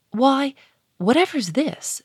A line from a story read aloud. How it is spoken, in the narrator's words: she cried